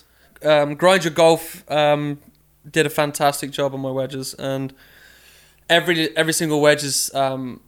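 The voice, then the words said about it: Slight English accent. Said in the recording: “my English accent's coming back a little bit more”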